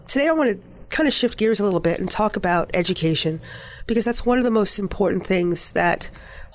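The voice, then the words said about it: Slightly congested voice from cold. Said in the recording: “Forgive my voice today. I have a little bit of a cold, so not as good”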